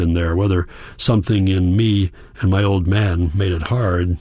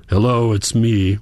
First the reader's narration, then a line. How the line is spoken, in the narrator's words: he said in his gruff voice